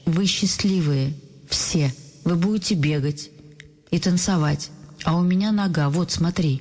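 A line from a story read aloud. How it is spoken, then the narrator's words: Angry voice breaking with sobs. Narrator (Russian): заплаканное хмурое лицо, и почти сердитый голос срывается от рыдания, отвечает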